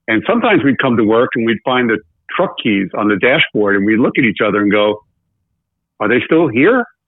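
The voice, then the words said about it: Speaks with a noticeable regional accent. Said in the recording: “because of my accent, I have to spell it out.”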